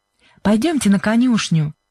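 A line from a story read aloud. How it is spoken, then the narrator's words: Said cheerfully. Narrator (Russian): весело сказала Сьюзен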